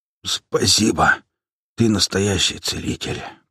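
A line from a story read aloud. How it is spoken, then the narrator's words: Hoarse rasp. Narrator (Russian): прохрипел я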